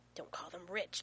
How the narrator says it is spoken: John hisses

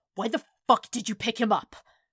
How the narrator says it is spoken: Bakugo snarled

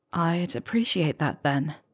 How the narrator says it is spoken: Harry said softly

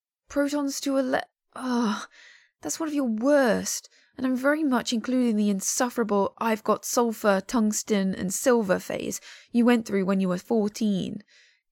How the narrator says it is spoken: Jiajia says with a long-suffering sigh

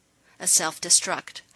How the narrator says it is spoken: Holling reported grimly

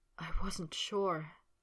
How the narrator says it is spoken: Potter said, a soft whisper

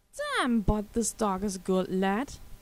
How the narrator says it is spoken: the DI exclaimed in admiration

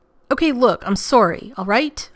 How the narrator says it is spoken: Rodney snapped, sounding anything but apologetic

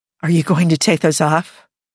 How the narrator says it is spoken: Jim breathed

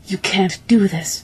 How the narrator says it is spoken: panted Viraj

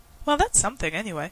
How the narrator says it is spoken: said Rodney, brightly

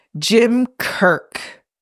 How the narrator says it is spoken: Gary Mitchell says, his voice floating over, sounding tightly furious

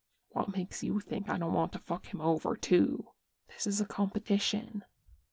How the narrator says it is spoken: whispers back

